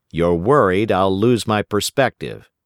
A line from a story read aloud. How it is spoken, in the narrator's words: said